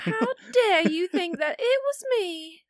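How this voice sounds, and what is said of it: Bad put-on southern accent. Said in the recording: “I got to talk with a little southern accent all night ... That was a bad one”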